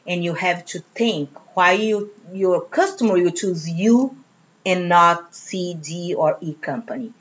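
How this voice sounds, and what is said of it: Speaks with a distinctive accent. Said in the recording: “I am unique here with this accent.”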